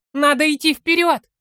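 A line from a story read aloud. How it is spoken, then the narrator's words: Hobbit's shout. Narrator (Russian): прокричал хоббит Фарнаку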